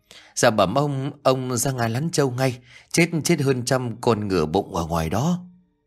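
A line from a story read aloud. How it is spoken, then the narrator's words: Breathless stammering maid. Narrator (Vietnamese): con hầu gái đã chạy vụn vào lắp bắp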